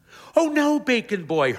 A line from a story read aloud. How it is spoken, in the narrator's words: Hermione Harrow exclaims